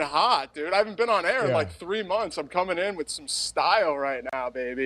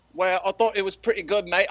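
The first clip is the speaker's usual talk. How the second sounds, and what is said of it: Put-on Cockney accent. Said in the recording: “I'm giving you a bit of a Cockney accent right now”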